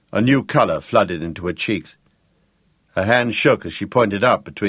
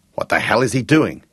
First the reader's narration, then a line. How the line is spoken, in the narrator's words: Jake demanded angrily